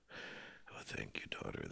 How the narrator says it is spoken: he sighed

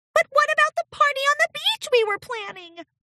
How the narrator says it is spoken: squeaked

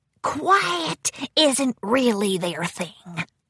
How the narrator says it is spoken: Grubber whispered

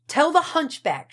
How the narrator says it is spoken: shrieked a muffled voice

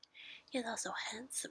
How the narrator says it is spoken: replied Elizabeth

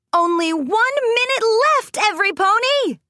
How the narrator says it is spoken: Rainbow Dash shouted

